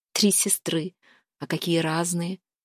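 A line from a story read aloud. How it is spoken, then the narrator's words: Thoughtful. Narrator (Russian): задумчиво сказала Лиля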